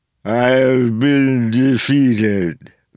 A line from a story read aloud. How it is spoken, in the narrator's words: Vendel said, words slurred by the broken jaw